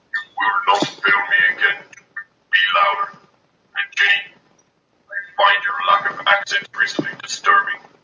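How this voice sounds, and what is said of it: Voice-changed Darth Vader impression. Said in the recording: “someone's used a voice changer to send us a message ... Pretending to be Darth Vader.”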